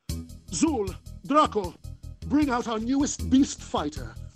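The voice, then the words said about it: Slight British accent, a little effete. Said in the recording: “There was like a slight British accent,... a little effete”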